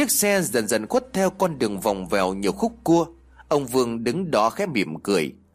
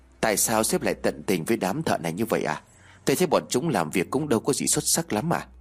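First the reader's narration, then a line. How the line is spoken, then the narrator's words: Quiet question. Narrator (Vietnamese): Tên quản lý khẽ hỏi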